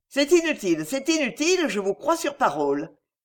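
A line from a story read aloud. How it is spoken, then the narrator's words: Hasty, embarrassed exclamation. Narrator (French): s'écria-t-il précipitamment, le visage cramoisi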